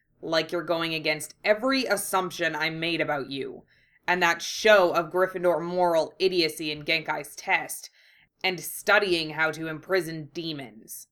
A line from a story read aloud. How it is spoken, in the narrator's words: he growled